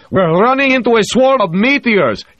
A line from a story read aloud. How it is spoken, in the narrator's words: He yelled into the ship's intercom microphone, so excited that he said it in Russian